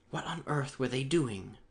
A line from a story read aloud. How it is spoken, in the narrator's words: asked Carnes in a whisper